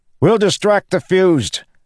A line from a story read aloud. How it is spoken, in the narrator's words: Kaladin shouted to Adolin